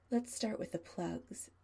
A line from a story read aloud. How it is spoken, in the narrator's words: Adam murmurs, loud enough that Chris can hear him